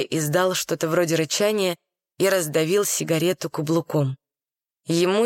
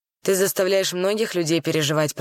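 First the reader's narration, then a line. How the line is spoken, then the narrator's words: Grumbling. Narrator (Russian): проворчал Чарли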